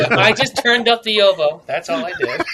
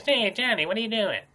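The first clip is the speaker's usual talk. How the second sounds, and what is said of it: Silly mocking impression voice. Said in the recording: “stupid voice like this ... just sounds like you tried to do an impression of yourself”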